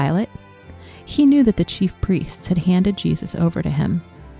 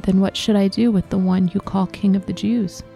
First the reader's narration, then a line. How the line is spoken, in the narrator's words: Pilate asked them